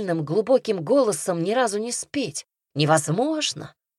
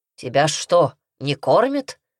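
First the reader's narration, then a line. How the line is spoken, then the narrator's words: Growled. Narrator (Russian): рыкнул он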